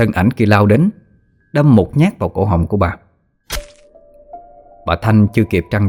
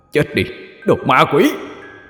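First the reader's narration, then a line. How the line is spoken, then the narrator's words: Furious roar. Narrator (Vietnamese): anh ta đã gầm lên những âm thanh đầy phẫn nộ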